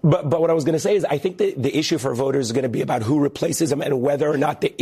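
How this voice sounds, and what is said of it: Slightly raspy voice. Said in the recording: “my voice is a little raspy”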